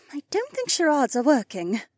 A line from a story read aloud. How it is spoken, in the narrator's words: Becca sighed